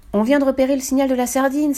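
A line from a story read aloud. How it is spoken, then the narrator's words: Exclamation. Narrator (French): s'exclame Gino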